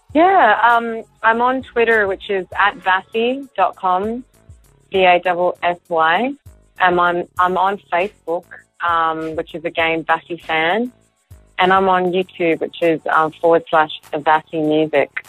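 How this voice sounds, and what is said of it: Slight Australian accent. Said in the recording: “I hear a little accent in your voice ... I am from Australia.”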